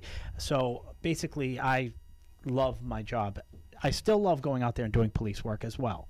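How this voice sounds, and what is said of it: Massachusetts accent. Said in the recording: “in Massachusetts, if you couldn't tell by the accent”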